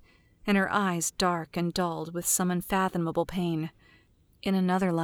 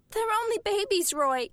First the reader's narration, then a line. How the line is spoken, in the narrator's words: Ethel whimpered